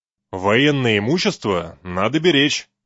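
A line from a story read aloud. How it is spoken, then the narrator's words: Stern. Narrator (Russian): строго сказал сержант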